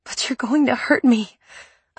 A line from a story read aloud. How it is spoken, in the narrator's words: I panted